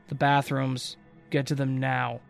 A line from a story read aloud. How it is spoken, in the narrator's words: he said in his usual monotone but low voice